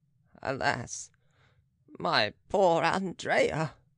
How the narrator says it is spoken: sighed the Baron

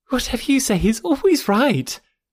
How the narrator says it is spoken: cried Harriet

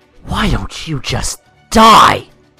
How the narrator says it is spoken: Jeff said in an angrily hateful voice

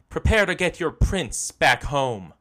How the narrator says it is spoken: shouted triumphantly

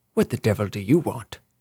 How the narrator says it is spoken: a man's voice demanded harshly

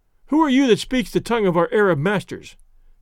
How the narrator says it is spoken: cried the Manayuma spokesman

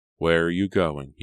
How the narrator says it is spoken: he asked

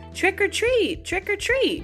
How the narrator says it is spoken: cried the girls

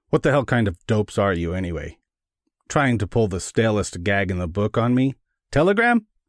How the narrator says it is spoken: His voice was hard with contempt

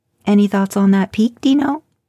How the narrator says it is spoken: She asked playfully

